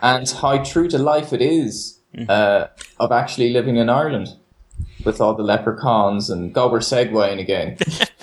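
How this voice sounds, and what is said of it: Irish accent. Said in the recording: “as an Irishman, if anyone's listening, you can probably tell that I've that exotic accent”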